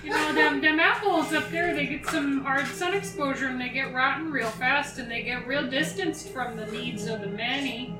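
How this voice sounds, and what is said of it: Put-on accent, drifting, funny-sounding. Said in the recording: “Your accent shifted a degree at the end there, and it sounded really funny.”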